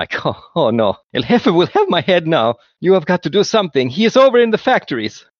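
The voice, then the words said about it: Character voice, East European accent. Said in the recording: “he's migrated to a East European accent”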